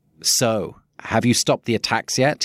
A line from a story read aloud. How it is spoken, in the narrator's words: sneered